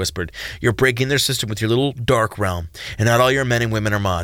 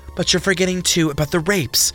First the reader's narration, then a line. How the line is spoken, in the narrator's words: Jordan cried, her voice passionate with justice